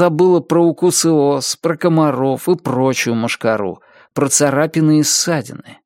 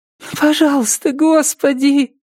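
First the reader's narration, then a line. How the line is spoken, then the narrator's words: Pleading. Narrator (Russian): взмолилась Триша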